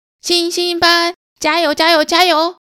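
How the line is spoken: Group chanting. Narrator (Chinese): 老师召集大家一起呼喊加油口号

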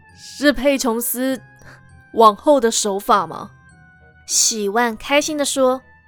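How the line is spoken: Soft somber. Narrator (Chinese): 诺特脸色一暗 轻声说

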